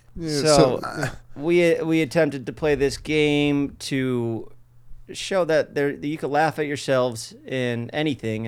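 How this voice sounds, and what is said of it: Staten Island New York accent. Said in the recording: “Does my accent sound like I'm saying artistic? ... you're from Staten Island”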